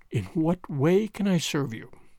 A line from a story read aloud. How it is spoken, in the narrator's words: he said, whilst his voice shook almost as much as hers